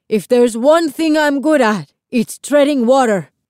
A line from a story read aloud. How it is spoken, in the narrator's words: Lito yelled back